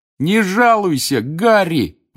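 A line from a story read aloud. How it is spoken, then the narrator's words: Delighted shout. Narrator (Russian): восторженно крикнул Рон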